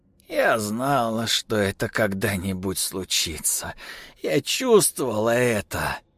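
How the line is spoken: Grandmother sighing. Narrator (Russian): бабушка вздохнула и сказала

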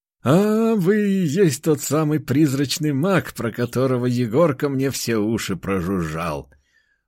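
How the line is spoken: Smiling. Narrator (Russian): Улыбнулся он

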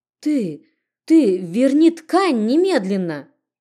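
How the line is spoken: Angry stammering shout. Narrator (Russian): Запинаясь от злости, что кипело внутри, прокричала

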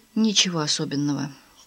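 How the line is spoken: Quiet answer. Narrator (Russian): тихо ответила Мадлен

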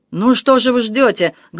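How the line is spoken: Loud shout. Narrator (Russian): громко закричала Камила

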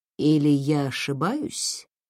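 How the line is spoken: Quiet question. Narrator (Russian): тихо спросил Кэнсин

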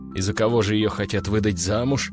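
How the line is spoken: Scoffing. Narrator (Russian): хмыкнул я

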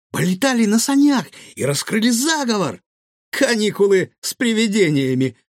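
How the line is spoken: Pleased giggle. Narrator (Russian): довольно хихикнул Гаврош

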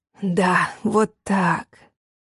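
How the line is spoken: Growling. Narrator (Russian): зарычал он

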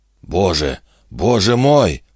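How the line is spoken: Moaned. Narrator (Russian): простонал Вимс

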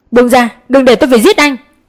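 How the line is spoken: Shouting while struggling. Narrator (Vietnamese): Mi vùng vẫy hét lớn

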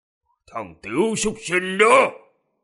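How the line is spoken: Angry growl. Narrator (Vietnamese): Điện Bất Dịch gầm gừ giận dữ

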